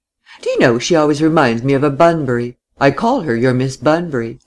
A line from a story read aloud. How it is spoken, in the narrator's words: Laura laughed